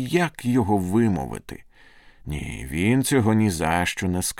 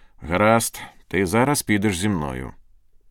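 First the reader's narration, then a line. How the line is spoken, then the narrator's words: Stern command. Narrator (Ukrainian): наказав він суворо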